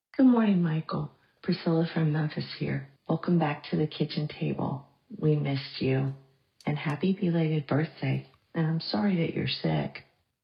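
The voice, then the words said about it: Warm, compassionate voice. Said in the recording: “hear the compassion in her voice? ... She is like warm soup”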